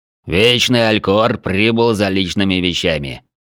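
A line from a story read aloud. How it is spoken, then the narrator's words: Deep bass voice. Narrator (Russian): пробасил стражник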